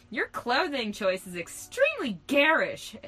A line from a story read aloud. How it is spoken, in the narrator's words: exclaimed Hillary